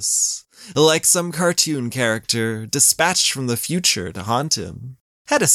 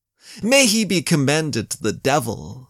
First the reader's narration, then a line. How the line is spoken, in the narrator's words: spat Raynaud